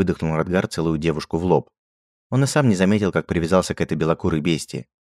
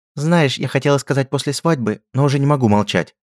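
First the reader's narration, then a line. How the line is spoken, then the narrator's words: Nervous babbling. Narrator (Russian): пролепетала Анна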